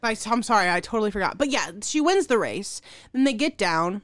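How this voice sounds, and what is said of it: Usual voice. Nothing is said of it.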